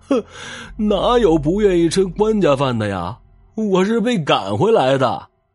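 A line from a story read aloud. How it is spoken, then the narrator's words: Wailing. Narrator (Chinese): 那来人大哭着说道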